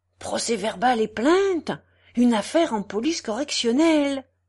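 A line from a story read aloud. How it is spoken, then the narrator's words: Exclaimed. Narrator (French): s'écria Lupin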